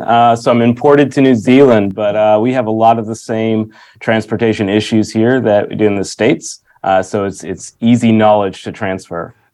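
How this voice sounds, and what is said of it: American accent, not New Zealand. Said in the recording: “you don't have a New Zealand accent ... Nope, I'm an American”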